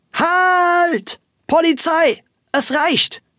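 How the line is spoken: Loud scream. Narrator (German): schrie Frau Wölkchen laut

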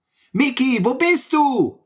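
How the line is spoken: Calling out. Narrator (German): rief Sammy

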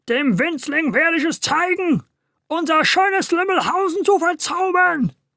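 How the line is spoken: Furious shout. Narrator (German): schrie er wutentbrannt

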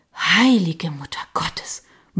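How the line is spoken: Murmur. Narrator (German): murmelte ich

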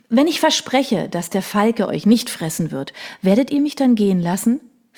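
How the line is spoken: Plain. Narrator (German): fragte sie

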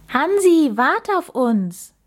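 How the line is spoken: Calling after someone. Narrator (German): rief Max ihm hinterher

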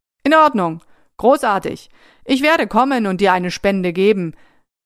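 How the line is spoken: Laughing. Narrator (German): Er lachte einfach und sagte

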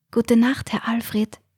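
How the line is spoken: Whisper. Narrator (German): flüsterte Mechthild

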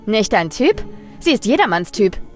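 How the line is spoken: Biting called remark. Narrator (German): rief sie ihm bissig zu

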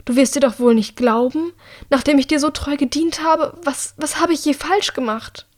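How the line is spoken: Pleading. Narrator (German): Sie fleht Annika tatsächlich an

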